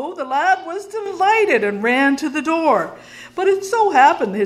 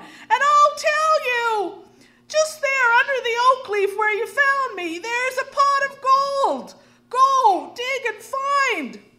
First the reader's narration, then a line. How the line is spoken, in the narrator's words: cried the leprechaun